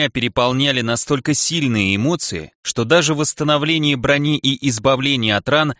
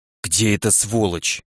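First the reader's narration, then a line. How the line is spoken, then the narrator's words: Through gritted teeth. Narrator (Russian): процедил я сквозь зубы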